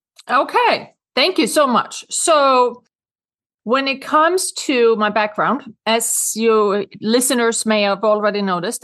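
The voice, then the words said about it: Swedish accent. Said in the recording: “I have a Swedish accent because I'm from Sweden.”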